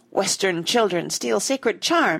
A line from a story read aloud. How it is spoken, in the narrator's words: he cried